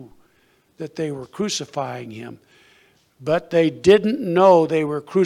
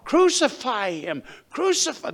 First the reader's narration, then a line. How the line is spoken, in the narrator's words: They had cried out